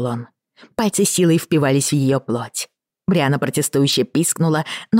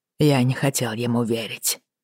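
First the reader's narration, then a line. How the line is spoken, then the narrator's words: Deadened, lifeless voice. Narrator (Russian): сказал он помертвевшим голосом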